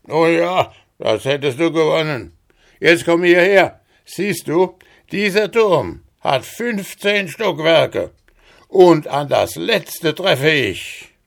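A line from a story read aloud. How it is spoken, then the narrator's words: Called out. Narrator (German): rief er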